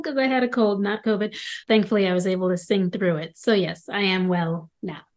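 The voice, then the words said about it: Slightly raspy voice. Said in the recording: “I'm getting over a cold, so sorry if I sound a little bit raspy.”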